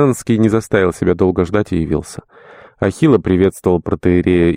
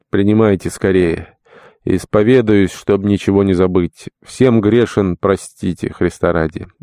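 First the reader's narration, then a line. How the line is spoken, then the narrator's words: Sighing. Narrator (Russian): вздохнув, добавил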